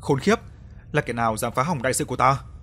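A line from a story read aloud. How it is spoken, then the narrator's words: Angry. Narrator (Vietnamese): Tức giận nói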